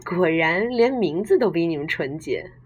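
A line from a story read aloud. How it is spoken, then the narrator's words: Laughing. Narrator (Chinese): 我笑道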